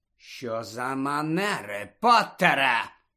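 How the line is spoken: Menacing hiss. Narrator (Ukrainian): погрозливо прошипів Снейп

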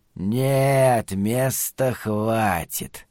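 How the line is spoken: Child's whisper. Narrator (Russian): прошептал малыш

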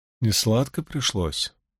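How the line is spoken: Very soft, cautious question. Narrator (Russian): тихонько, словно боясь нарушить покой хранительниц, спросила у нее Эгвейн

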